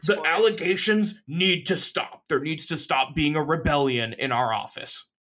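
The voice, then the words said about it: Imitates another person's voice. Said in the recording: “my Dave Portnoy impression ... It was pretty good ... It sounded straight”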